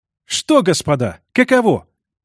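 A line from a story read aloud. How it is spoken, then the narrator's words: Exclamation. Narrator (Russian): воскликнул сенатор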